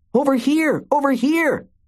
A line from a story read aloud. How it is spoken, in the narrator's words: yelled